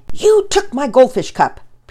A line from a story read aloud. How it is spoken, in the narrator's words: Pearson angrily accused Penelope